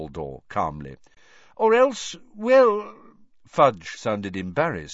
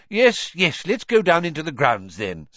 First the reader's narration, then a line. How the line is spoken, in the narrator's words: said Cornelius impatiently